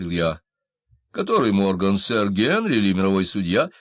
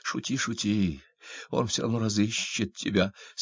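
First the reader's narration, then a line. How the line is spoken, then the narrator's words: Furious whisper. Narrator (Russian): с яростью прошептала она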